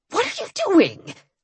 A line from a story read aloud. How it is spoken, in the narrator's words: Dagon hissed